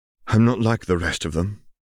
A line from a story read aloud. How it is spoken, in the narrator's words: he sighed